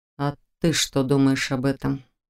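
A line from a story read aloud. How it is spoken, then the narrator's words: Quiet question. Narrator (Russian): поинтересовался он тихо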